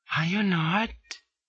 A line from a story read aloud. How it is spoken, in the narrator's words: whispers she